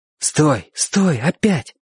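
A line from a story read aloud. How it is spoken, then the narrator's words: Whispering. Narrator (Russian): шептал Чик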